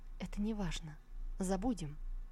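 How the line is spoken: Quiet. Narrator (Russian): Тогда она тихо проговорила

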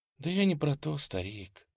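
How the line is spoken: Sighed. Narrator (Russian): вздохнула дружинница

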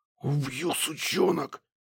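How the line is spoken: Hiss. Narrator (Russian): прошипел

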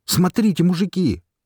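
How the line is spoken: Shout. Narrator (Russian): крикнул Пришлый

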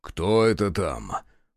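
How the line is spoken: Low-voiced question. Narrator (Russian): вполголоса спросил Захар

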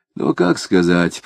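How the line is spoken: Grumbling. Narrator (Russian): проворчал Безбедов

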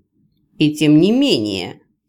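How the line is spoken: Restrained growl. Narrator (Russian): сдержанно рыкнул Раил

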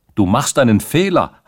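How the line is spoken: Very loud shout. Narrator (German): hatte Rantzau da mit so lauter Stimme gerufen, dass alle, die sich in der Nähe befanden, es hören konnten

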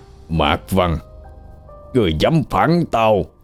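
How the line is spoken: Hissing through teeth in pain. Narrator (Vietnamese): Hắn rít qua kẻ răng, đau đớn ôm lấy đầu, biểu hiện vô cùng thống khổ

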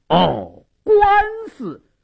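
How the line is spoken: Deliberately loud. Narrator (Chinese): 矿中故意大声说道

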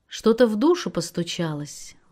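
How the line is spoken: Warm, smiling. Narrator (Russian): ласково улыбаясь, продолжал Рэм

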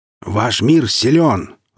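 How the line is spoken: Growled. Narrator (Russian): рыкнул Вульфер

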